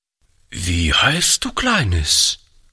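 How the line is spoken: Hesitant question. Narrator (German): fragte Oliver zögernd

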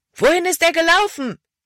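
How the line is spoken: Loud call. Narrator (German): rief Caleb laut

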